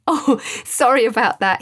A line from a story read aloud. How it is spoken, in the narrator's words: said after a few moments of giggling, still finding it hard to speak